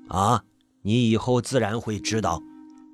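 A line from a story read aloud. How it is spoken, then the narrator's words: Calm, detached old man. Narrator (Chinese): 老道士淡淡的说了一句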